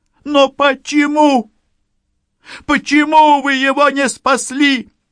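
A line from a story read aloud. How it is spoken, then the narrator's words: Hysterical sobbing like a child. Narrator (Russian): Юля вдруг зарыдала истерично навзрыд, как ребенок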